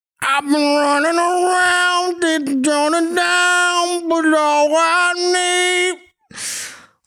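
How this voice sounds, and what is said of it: Sings imitating a rock band's vocals. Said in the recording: “my impression of Kings of Leon”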